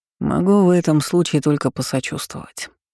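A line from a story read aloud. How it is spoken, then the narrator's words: Sighing. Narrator (Russian): вздохнул он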